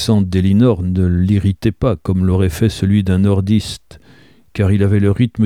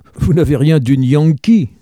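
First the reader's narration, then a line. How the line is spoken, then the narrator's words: Exclaiming. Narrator (French): s'exclama-t-il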